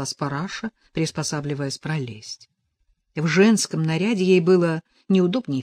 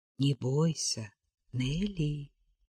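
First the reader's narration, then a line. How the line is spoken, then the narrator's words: Quiet. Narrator (Russian): тихо произнес Росков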